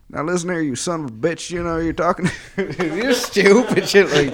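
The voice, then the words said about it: Imitates another person's voice. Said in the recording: “Such an out-of-pocket, out-of-nowhere impression to have as well... Bill... Clinton... was that a good impression? I felt like it was pretty good.”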